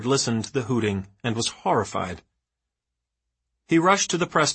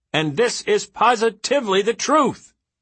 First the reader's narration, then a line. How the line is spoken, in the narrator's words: he was screaming into the mic, concluding in an angry bellow